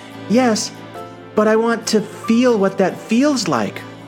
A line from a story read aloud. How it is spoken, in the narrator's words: cried the little soul